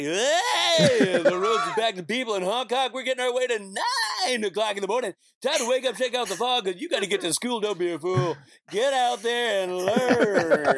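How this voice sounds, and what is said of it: Radio DJ announcer voice. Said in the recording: “I do my morning DJ voice”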